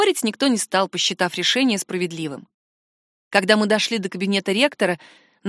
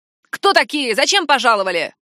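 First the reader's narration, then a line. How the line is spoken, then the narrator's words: Sharp bark. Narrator (Russian): рявкнула красотка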